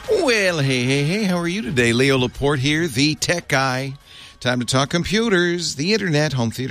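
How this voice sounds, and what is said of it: Usual voice. Nothing is said of it.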